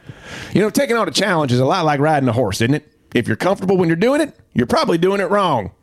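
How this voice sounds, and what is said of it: Ted Lasso impression. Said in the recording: “do this one in a Ted Lasso accent”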